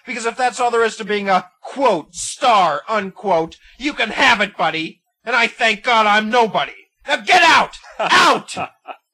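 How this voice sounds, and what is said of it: Emotional, angry shouting. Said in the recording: “always getting emotional”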